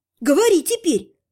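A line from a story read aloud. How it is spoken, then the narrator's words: Snapping. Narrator (Russian): огрызнулась я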